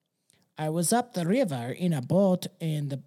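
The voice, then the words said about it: Put-on accent drifting Mexican. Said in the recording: “Sorry, that went Mexican. ... This impersonation.”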